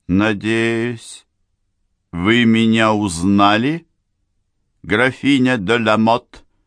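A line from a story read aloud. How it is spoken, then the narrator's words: Cold metallic question. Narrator (Russian): спросила она металлическим голосом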